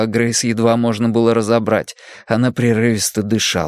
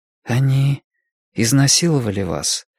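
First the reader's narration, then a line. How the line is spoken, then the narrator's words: Quiet, forced calm. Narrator (Russian): тихо сказала Сага, стараясь, чтобы ее голос звучал спокойно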